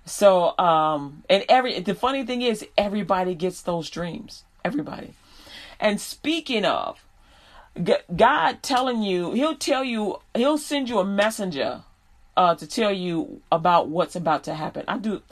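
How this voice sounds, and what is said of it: New York accent. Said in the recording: “my dialect is changing ... I just hear New York in my head ... when I get a little bit excited about a subject, I start hearing it again”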